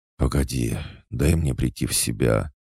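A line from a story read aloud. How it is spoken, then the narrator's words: Heavy exhale. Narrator (Russian): Тяжко выдохнул я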